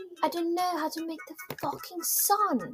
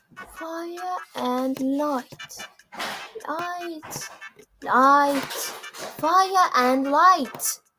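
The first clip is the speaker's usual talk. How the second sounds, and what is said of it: Annoying put-on accent. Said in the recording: “I'm doing an annoying accent.”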